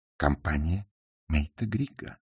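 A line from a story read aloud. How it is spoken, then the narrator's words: Calm answer. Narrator (Russian): спокойно ответила она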